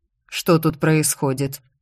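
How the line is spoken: Cold question. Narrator (Russian): холодно спросил маг

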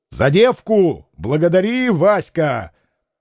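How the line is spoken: Shouted. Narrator (Russian): Петр крикнул Волкову

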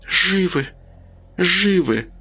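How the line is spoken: Almost soundless muttering. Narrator (Russian): уже почти беззвучно бормотала Рита

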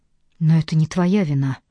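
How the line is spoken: Gentle. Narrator (Russian): мягко сказал Кейт

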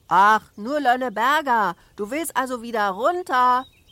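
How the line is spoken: Shouted. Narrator (German): schrie Michel

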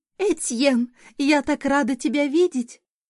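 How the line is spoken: Loud squeaky female voice. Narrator (Russian): Неожиданно громко пропищал женский голосок

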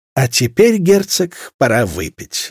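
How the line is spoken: Laughing. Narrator (Russian): засмеялась Марианна

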